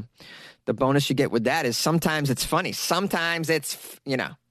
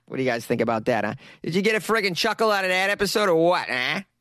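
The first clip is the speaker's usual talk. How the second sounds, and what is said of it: Put-on Rhode Island accent. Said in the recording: “That was my Rhode Island accent”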